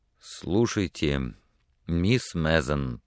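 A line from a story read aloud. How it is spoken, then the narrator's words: Slow stammer, then rapid. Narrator (Russian): начал он медленно и запинаясь, но затем понесся с такой быстротой, что его с трудом можно было понять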